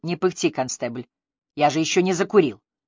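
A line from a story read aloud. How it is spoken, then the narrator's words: Grumbling. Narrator (Russian): проворчав Мотту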